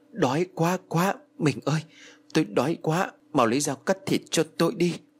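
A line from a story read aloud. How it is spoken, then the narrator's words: Panting, soft. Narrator (Vietnamese): Ông Phú thở hổn hển rồi khẽ nói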